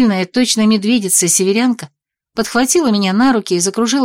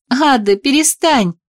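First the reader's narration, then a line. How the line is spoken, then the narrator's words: Laughing. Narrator (Russian): смеялась я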